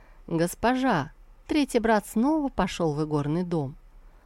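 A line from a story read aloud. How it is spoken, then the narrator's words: Joyful report. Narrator (Russian): он радостно доложил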